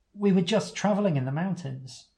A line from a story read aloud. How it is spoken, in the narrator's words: Uncomfortable under his scrutiny, you say quickly